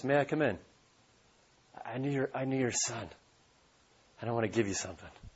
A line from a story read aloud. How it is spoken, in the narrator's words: the soldier says in a soft voice